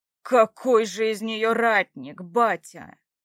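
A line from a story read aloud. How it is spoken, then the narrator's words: Unrestrained growl. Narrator (Russian): Не сдержавшись, прорычал вновь Ярослав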